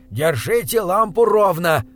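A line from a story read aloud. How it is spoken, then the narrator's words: Shouting. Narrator (Russian): выкрикнул доктор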